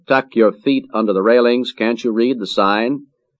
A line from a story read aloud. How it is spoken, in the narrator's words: The operator called out